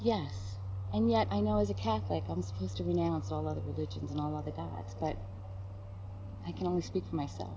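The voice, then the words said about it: New York accent. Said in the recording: “The New York accent will really come out on that”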